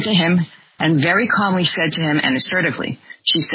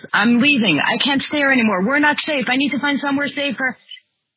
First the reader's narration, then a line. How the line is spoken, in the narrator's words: a man started shouting